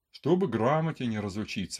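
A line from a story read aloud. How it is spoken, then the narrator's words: Plain. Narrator (Russian): говорит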